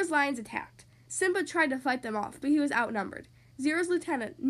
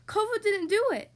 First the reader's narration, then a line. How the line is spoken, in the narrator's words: Kira pleaded